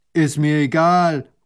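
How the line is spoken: Farmer calling out. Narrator (German): ruft der Bauer

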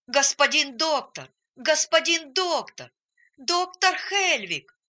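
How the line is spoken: Shout at full strength. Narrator (Russian): крикнул он изо всех сил

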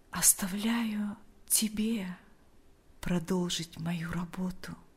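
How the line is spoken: Quiet. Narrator (Russian): тихо произнес он

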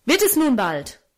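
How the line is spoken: Angry call. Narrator (German): rief er zornig

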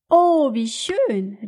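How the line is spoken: Exclaimed. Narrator (German): rief Kato-san

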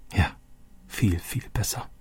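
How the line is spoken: Quiet. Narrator (German): sagte Roberto leise

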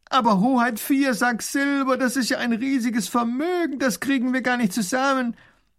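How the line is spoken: Calling out. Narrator (German): ruft der Baron

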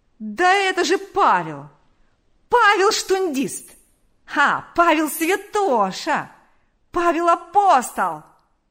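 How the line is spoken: Yelling. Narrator (Russian): вопил

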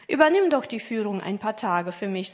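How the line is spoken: Plain. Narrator (German): sagte er

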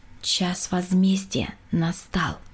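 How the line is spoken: Quiet. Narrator (Russian): тихо сказала

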